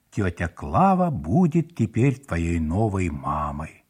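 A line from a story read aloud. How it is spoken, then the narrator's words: Solemn announcement. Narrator (Russian): папа торжественно заявил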